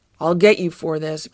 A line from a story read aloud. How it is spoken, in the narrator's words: grumbled Garfield